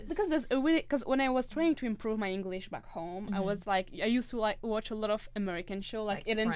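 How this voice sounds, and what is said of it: French accent in English. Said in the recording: “I'm from France, you know, and I still have this French accent that people sometimes don't understand.”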